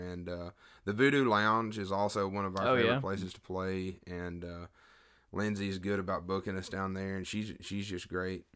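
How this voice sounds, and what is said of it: Slightly rough voice. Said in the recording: “my voice is a little rough”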